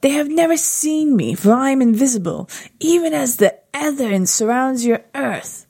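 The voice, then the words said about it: Put-on British accent, eerie reading. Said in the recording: “Why am I doing a British accent? ... enough, Sean Connery”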